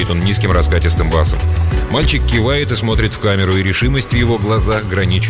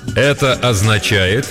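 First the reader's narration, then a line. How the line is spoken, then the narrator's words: Loud and slow. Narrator (Russian): громко и медленно произносит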